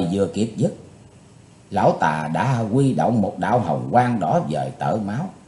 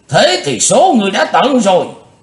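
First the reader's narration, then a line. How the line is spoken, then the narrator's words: Furious thundering roar. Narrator (Vietnamese): Nam Tà không còn kiềm hãm được cơn tức giận của mình nữa, giống tợ như trời gầm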